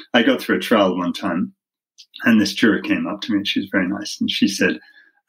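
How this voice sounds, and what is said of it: British accent. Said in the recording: “someone with a British accent ... I love your accent.”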